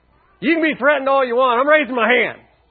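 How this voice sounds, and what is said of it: Yelling, loud preaching voice. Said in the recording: “I'm yelling.”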